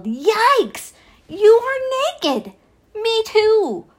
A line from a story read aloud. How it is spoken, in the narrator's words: Adam yelled